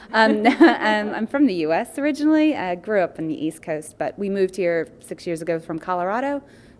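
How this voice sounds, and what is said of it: Slight American accent. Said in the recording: “People will detect a bit of an accent there.”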